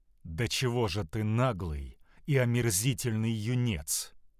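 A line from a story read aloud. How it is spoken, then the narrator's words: Calm. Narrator (Russian): спокойным тоном проговорил Янош-старший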